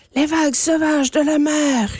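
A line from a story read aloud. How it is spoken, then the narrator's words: Roaring river. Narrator (French): rugit la rivière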